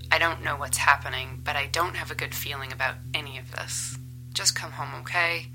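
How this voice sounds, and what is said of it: Worried, concerned tone of voice. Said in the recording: “That's real concern you hear in my voice.”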